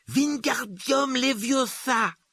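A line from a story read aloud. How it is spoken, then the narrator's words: Exclaiming. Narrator (French): s'écriait-il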